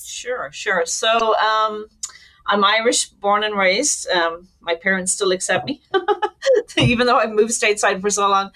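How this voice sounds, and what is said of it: Irish accent. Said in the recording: “you can tell from ... accent, she's originally from Ireland”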